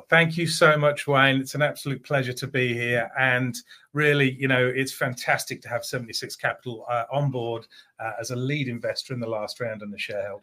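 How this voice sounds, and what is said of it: Mixed English and Australian accent. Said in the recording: “they may catch a little bit of an accent here ... I live in Australia, but I'm English by birth ... a little bit of multinational accents, a little bit of a mix”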